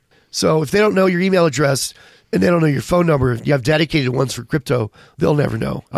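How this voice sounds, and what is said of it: Strained, hoarse voice. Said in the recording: “I'm losing my voice”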